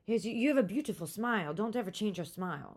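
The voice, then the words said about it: Poor put-on French accent. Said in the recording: “I don't even know if I can even attempt a French fucking accent... That's a terrible French accent.”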